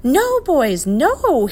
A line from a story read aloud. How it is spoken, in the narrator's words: he yelled at the top of his voice